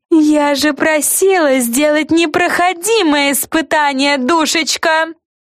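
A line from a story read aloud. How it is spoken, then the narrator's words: Yelling. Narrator (Russian): заорала главная Карен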